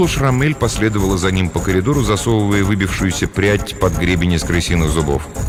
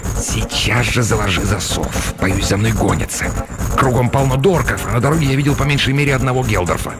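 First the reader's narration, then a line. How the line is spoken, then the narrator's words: Hissed. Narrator (Russian): Неизвестный прошипел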